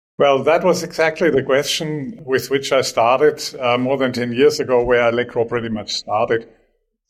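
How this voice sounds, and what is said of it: German accent. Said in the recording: “you can probably tell by my accent that I'm not Australian ... I immigrated from Germany”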